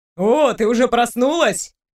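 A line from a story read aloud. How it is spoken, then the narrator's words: Too loud. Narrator (Russian): Он говорил чересчур громко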